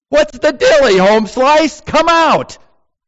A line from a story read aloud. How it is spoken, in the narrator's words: cried out to Lazarus